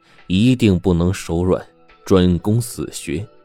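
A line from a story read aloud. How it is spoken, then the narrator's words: Loud. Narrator (Chinese): 台下的土豹呢，大声的告诉郑小民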